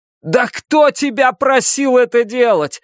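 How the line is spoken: Shouting. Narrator (Russian): Закричал Клай

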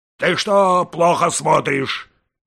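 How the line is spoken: Shouting angrily. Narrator (Russian): кричал он часовому

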